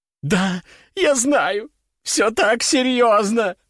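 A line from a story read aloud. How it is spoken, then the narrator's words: Sobbing. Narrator (Russian): зарыдала женщина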